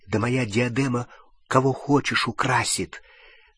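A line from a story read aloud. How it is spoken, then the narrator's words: Resonant whisper. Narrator (Russian): Звучным шепотом сообщила тетя Мюриэль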